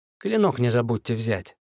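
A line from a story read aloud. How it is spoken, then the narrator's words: Calm reminder. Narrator (Russian): вполне спокойно напомнил я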